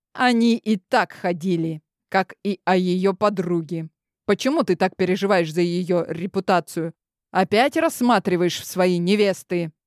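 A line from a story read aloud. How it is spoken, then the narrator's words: Growling. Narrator (Russian): Практически прорычал я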